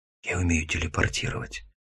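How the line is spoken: Nervous whisper. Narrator (Russian): шепнул я, сразу вспотев

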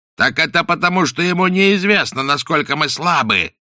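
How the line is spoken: Shout. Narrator (Russian): закричал Каузак

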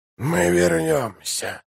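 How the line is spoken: Whisper. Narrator (Russian): прошептал он

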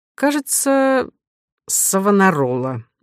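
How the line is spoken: Uncertain. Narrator (Russian): неуверенно ответил Милодар

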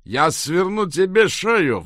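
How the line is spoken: Roar. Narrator (Russian): взревел Кадай

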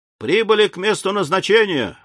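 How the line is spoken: Young man exclaiming. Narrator (Russian): воскликнул молодой мичман

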